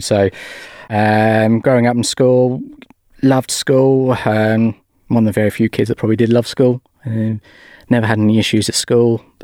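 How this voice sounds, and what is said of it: English accent. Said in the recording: “you can probably guess my accent, not over here. I was born in England, Norwich.”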